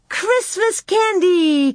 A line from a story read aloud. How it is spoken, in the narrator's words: Carrie cried